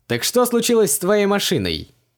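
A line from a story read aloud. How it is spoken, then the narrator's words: Cheerful question from a driver. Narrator (Russian): весело переспросил шофер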